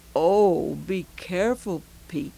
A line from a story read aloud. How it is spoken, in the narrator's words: she said